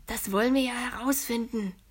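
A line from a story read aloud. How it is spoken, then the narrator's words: Whisper. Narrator (German): flüstert Julius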